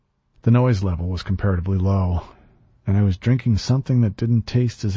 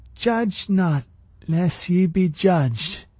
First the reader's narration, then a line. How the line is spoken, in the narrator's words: she slurred